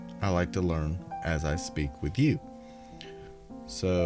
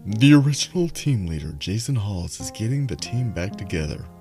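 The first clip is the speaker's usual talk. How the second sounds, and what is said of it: Exaggerated sultry sexy voice. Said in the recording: “in my sexy voice”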